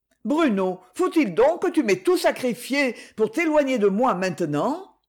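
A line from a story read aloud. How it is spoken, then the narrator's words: Pained cry. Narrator (French): Il s'écria douloureusement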